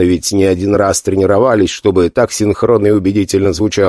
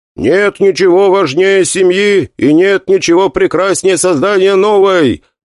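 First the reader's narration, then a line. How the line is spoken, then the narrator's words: Loud reply. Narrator (Russian): громко отвечал я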